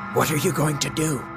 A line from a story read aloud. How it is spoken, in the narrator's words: he whispered hoarsely